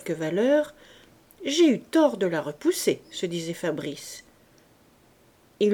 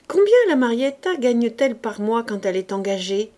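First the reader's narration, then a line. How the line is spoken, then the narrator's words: Swaggering exclamation. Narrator (French): s'écria-t-il de l'air dont un jeune homme qui se respecte entre à Paris au balcon des bouffes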